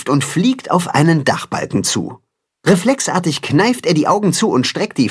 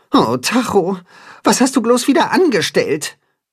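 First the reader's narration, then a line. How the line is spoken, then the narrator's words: Sigh. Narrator (German): seufzt Timme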